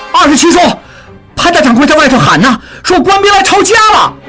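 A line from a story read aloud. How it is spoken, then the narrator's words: Teenage boy calling out. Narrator (Chinese): 只有16岁的从弟应文 对景清叫道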